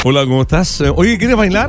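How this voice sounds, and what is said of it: Radio announcer voice. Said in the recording (Spanish): “Ahí ponen voz de. ... Ponen voz de locutor.”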